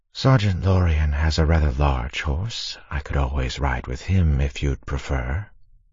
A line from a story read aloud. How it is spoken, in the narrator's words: Vecina whispered in Conowa's ear